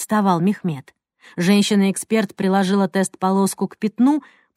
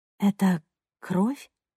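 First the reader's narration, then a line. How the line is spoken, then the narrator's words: Whisper. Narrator (Russian): прошептала Ника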